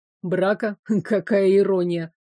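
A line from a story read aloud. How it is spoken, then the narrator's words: Scoffing. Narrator (Russian): Хмыкнул Арчи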